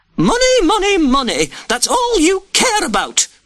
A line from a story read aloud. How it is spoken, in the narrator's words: Lady Prescott screamed